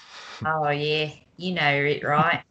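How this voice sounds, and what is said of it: Attempted Australian accent, sounding British. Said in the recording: “has never been afraid to bust out an accent ... That mildly sounded Australian at the end, but I think it sounded more British to start off with.”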